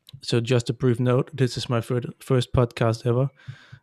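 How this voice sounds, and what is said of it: Slight Danish accent. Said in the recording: “you can might hear him from Denmark because of my awesome tone of voice here. It's a little bit Danish”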